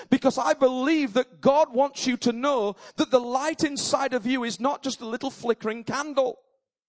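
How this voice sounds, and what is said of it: Shouting, intense preaching voice. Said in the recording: “sorry I'm shouting, but I'm trying to be as intense as the sun”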